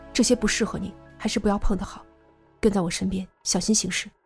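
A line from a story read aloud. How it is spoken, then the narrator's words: Low voice. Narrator (Chinese): 苗阿飘低声道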